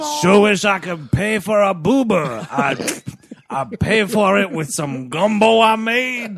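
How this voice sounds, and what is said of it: Terrible put-on accent. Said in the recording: “the accent's terrible”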